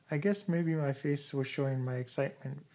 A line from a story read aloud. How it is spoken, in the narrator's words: Vicki laughed, passing the incident off lightly